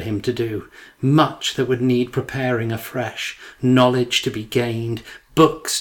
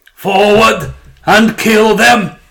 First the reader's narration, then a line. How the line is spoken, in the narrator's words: roared